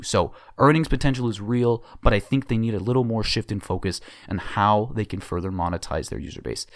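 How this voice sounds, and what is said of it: Raspy, strained voice giving out. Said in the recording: “My voice is kind of giving out a little bit. It's very raspy”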